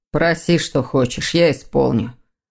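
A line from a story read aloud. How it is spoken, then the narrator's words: Muffled, stranger speaking. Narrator (Russian): глухо проговорил незнакомец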